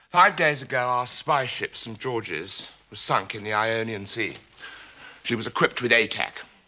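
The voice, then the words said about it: Posh British accent. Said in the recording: “I was doing a posh person's accent.”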